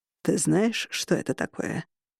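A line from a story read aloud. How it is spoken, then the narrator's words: Deep, slightly hoarse. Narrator (Russian): Голос ему соответствовал, глубокий и слегка хриплый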